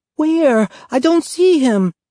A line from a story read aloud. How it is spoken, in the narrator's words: Evelina whined